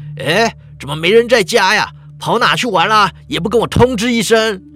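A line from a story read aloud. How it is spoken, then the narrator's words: Father calling out. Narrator (Chinese): 老爸熟悉的声音喊着说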